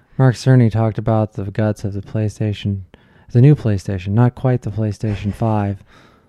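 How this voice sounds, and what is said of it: Soft, slightly robotic cadence. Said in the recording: “He has a very soft cadence to himself and speaks very slightly robotic like this.”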